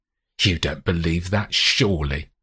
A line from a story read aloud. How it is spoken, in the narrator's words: sneers